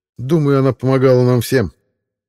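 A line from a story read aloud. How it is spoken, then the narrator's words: Plain. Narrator (Russian): ответил Саймон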